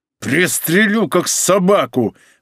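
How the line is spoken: Roaring. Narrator (Russian): взревел Павел

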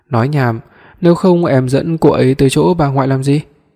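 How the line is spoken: Red-faced angry shouting. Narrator (Vietnamese): Nhiếp Quân mặt đỏ tía tai kêu gào

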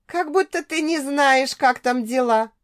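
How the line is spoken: Giggling. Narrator (Russian): хихикнула

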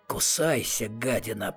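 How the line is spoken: Growled. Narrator (Russian): прорычал Атос

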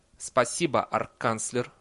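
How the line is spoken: Cold thanks. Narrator (Russian): холодно поблагодарил декан

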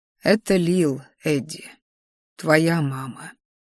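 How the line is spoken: Quiet. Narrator (Russian): тихо сказал император

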